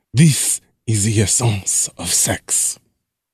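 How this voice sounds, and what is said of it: Poorly done French accent. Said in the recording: “I think I did that terribly ... Is that a French accent? ... I think she was supposed to be.”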